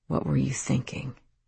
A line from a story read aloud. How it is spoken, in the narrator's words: said softly